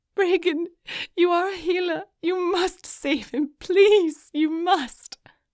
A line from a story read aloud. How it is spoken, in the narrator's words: Morgan sobbed